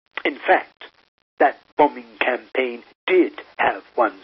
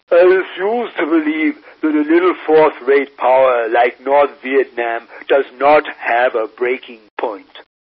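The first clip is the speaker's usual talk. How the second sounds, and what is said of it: Henry Kissinger impression. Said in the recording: “here I will invoke my best Kissinger accent,”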